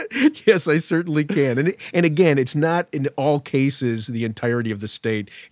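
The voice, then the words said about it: Speaks with an accent. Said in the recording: “with your beautiful accent”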